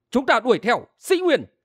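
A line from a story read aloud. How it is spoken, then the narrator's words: Defiant, raised voice. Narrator (Vietnamese): Đơn minh không phục, cao giọng nói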